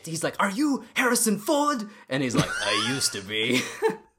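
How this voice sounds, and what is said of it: Put-on Nigerian accent. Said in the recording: “Is that your Nigerian accent? ... Yeah, that's my Nigerian accent.”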